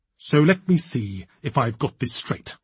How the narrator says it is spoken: he said, his voice dangerously quiet, like a fuse wire in the moment after the spark disappears into the bomb

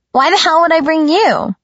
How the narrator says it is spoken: She exclaimed

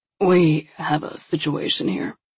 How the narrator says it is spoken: rasped out

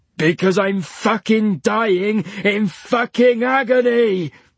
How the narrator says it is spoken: roared Leech

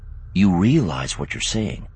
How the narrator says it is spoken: he said quietly

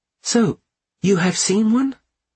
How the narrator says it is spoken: she interrupted brightly

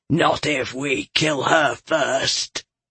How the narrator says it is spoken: Galathon rumbled

